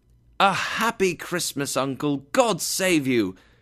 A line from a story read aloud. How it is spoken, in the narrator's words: cried a happy voice